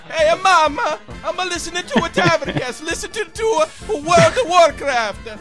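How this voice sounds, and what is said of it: Put-on Italian accent. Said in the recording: “Italian teenager”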